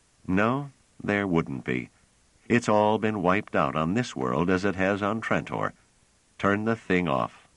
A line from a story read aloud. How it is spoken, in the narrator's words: Trevise said bitterly